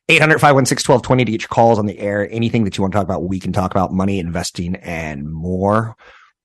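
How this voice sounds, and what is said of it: Hoarse, raspy voice. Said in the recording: “I got that voice that's not the sexy, raspy voice ... But the it's getting a little bit cooler outside voice, throat”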